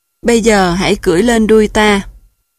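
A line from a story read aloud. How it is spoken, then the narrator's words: Smiling. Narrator (Vietnamese): mỉm cười và nói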